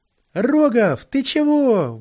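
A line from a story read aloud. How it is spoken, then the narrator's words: Shout. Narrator (Russian): выкрикнул Киря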